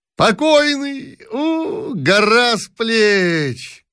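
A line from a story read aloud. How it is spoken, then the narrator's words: Loud, joyful officer. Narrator (Russian): громко и радостно сказал один из офицеров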